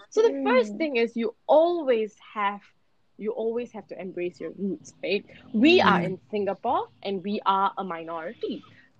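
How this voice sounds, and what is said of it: Indian accent. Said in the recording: “I have an Indian accent”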